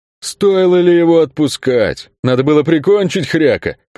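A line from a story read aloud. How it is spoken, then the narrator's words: Booming childlike hurt. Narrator (Russian): прогудел Кельк с совершенно детской обидой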